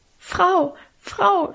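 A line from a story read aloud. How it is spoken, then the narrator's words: Stammering. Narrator (German): stammelte sie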